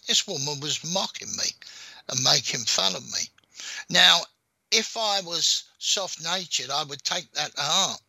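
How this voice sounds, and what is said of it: London accent. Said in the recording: “I've got a London accent.”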